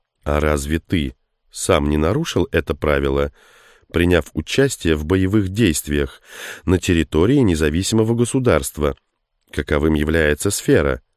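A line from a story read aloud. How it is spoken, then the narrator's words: Calm objection. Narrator (Russian): спокойно возразил Морвуд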